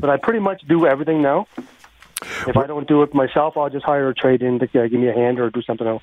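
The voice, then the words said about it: Nova Scotian accent. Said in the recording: “I recognize the accent. I could tell. ... this guy is not from Edmonton originally.”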